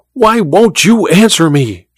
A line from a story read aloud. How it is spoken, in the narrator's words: she cried to Olga